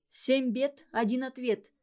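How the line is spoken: Plain. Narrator (Russian): сказала она

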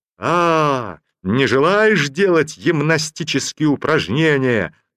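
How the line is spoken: Officer yelling. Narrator (Russian): заорал унтер-офицер

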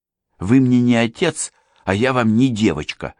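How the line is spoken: Young woman, angry. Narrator (Russian): сердито ответила девушка

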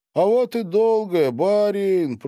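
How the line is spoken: Joyful, mocking. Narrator (Russian): произносит Перхуша радостно и насмешливо, в лишь ему одному присущей манере

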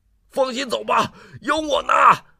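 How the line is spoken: Loud. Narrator (Chinese): 大声说

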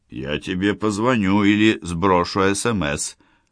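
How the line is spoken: Plain. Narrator (Russian): ответил Плотников

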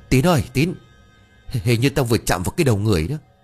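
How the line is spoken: Breathless stammering. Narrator (Vietnamese): Bằng một giọng hồn hển, ông ú ớ rồi lắp bắp

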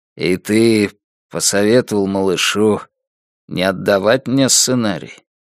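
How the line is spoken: Dejected voice. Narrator (Russian): упавшим голосом произнес Дилейни

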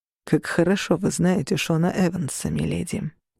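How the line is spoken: Quiet question. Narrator (Russian): тихо спросил Орланд

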